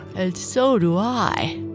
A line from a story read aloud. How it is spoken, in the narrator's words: his mother said, yawning